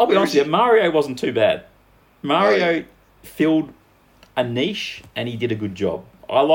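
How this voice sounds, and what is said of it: Usual voice. Nothing is said of it.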